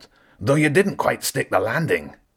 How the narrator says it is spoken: Zen called out

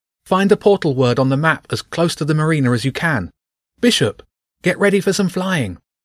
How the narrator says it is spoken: he shouted

